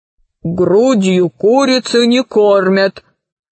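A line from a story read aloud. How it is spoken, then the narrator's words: Low booming drone. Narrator (Russian): прогудел владелец бара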